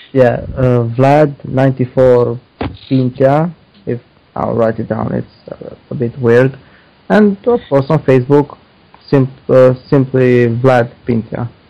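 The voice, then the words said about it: Romanian accent. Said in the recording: “your Romanian accent ... my stupid accent”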